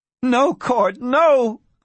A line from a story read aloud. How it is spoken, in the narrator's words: cried Barbara Kincaid